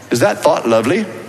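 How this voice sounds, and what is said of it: Attempted British accent. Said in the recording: “you sound a little British when you say it also. If you can throw in a little British accent. ... My British accent sounds just like my Waco accent, but that was actually a British accent”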